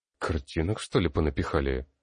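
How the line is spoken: Surprised grumble. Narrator (Russian): С некоторым удивлением буркнул я

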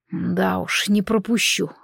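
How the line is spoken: Snorting hmph. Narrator (Russian): хмыкнул Корис

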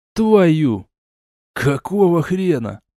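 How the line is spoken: Hissed. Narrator (Russian): прошипел Большой

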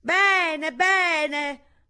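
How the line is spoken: Loud, hard-of-hearing speech. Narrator (Italian): Come la nana, anche la Finizio stava diventando un poco sorda e perciò diceva anche le cose più delicate a voce alta

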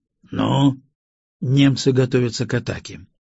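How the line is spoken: Calm. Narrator (Russian): спокойно произнес я

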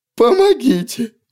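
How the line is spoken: Sobbing, mortally wounded man. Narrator (Russian): всхлипывал тот, что держал в пригоршне собственные кишки

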